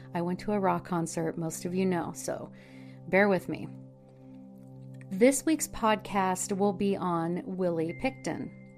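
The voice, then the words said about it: Hoarse, partly lost voice. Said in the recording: “I'm halfway losing my voice.”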